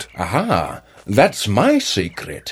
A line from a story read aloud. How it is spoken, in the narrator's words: answered Grandpa Jake with a chuckle